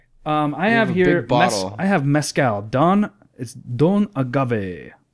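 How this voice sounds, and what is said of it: Vampire character voice. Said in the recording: “I don't know why I said that in my vampire voice.”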